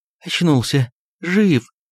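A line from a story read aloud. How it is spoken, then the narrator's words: Excited, agitated woman. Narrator (Russian): Взволнованно проговорила жена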